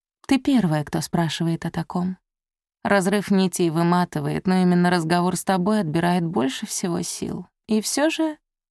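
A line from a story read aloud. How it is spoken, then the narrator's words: Soft, gentle. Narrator (Russian): мягко сказала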